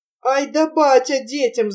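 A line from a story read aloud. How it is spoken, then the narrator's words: Laughing loudly. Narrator (Russian): захохотала Варвара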